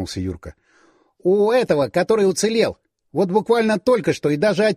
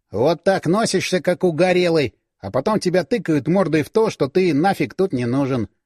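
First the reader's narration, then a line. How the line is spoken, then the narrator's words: Grumbled. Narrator (Russian): ворчал Юрка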